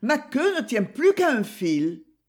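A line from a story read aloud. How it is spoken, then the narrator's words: Exclaiming. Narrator (French): s'écrie-t-il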